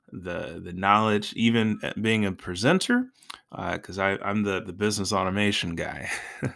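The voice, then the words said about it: Slightly hoarse voice. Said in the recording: “my voice might be a little hoarse”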